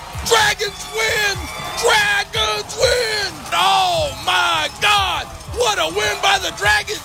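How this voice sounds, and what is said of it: Excited shouting sports call. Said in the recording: “I'm gonna lose my voice”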